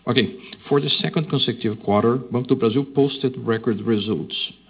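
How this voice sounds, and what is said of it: Non-native English accent, slow speech. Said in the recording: “I would like to speak slowly in order to guarantee that everybody is going to understand ... difficulty to understand the accent”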